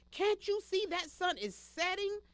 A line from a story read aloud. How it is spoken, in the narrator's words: shouted the sixth son